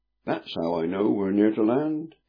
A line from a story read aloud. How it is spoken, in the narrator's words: said, with a throaty chuckle